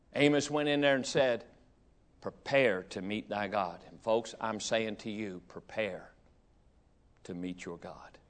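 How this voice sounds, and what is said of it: Hillbilly accent. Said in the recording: “that hillbilly accent ... And I never have got rid of it. I've tried to get rid of it, and I can't.”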